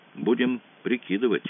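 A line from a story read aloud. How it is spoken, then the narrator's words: Plain. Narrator (Russian): сказал Мазур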